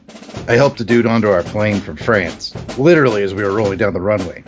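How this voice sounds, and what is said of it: Sergeant character voice. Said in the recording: “All my segments will be done in my Sergeant Rock voice, told by Sergeant Rock.”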